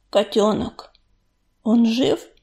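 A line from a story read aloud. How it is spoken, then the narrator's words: Father's hoarse voice. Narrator (Russian): Услышав хриплый голос отца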